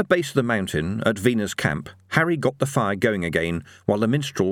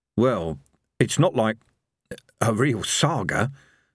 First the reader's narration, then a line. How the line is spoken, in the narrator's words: said evil Harry hoarsely